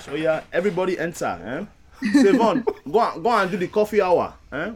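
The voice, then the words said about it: Put-on foreign accent. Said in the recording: “I need you to give us that accent for this... you want me to get an accent for this one?... We're in Niger Church today.”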